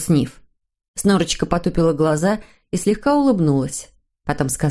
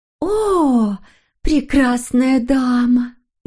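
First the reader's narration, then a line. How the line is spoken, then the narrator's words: Sighed. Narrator (Russian): вздохнула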